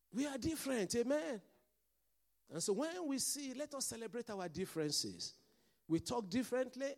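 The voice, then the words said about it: Hybrid accent, not Nigerian or Scottish. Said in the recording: “I've got my accent and I love it, amen? It's not Nigerian, it's not Scottish. It's an hybrid plucked from somewhere.”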